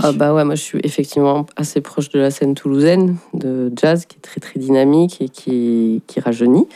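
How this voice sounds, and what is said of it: Slight southern French accent. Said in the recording (French): “un léger accent du sud”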